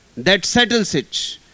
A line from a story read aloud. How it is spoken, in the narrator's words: roared the father